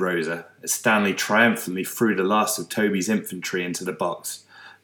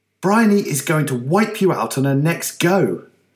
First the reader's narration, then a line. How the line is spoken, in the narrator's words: snapped Toby